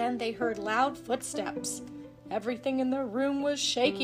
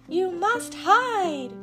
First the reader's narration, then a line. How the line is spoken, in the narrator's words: cried the golden harp